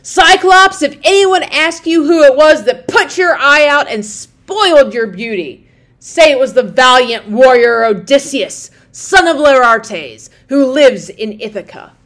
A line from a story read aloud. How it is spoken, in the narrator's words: shouted out to him in my rage